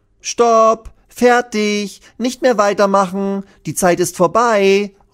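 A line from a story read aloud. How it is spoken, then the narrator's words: Calling out. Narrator (German): ruft Lilly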